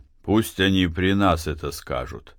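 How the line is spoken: Quiet. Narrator (Russian): тихо сказал Матвей, больше Силантию, чем приставу

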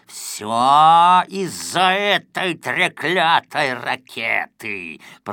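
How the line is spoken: Hiss. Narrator (Russian): прошипел

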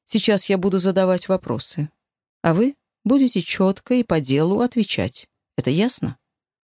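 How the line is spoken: Man, calm. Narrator (Russian): мужчина спокойно добавил

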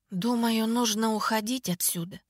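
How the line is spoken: Mumble. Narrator (Russian): пробормотала я

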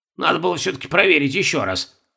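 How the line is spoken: Persistent grumbling. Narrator (Russian): не переставал ворчать Бальтазар

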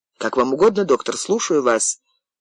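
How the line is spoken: Muttered. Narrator (Russian): пробормотал Винтер

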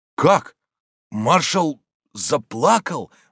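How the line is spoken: Incredulous exclamation, blacksmith. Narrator (Russian): воскликнул кузнец, не веря своим ушам

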